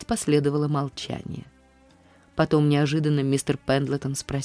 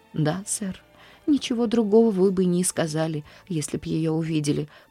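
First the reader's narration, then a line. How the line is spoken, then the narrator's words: Tearful speech. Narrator (Russian): продолжала Нэнси сквозь слезы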